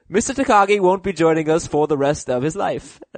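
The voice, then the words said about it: Badly done put-on accent imitation. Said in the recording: “that's a terrible accent”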